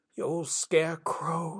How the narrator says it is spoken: she whimpered

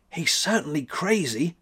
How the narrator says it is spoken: whispered Thekla

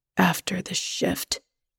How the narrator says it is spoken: he says in a low voice

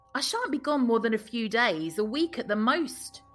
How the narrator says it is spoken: he said

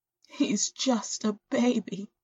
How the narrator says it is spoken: sobs into her hands

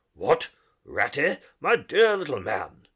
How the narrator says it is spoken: exclaimed the Badger in quite a different voice

